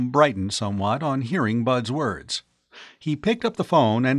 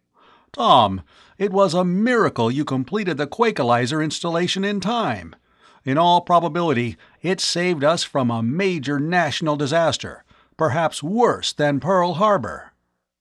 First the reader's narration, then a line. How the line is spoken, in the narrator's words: Miles exclaimed